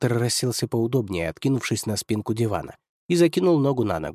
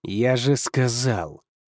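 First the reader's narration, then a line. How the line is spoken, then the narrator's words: Through gritted teeth. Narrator (Russian): процедил Хантер сквозь зубы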